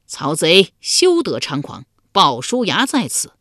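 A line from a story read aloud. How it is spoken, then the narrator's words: Loud shout. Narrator (Chinese): 一将高声叫道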